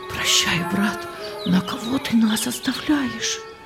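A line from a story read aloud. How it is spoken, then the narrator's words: Whispering. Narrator (Russian): шептали они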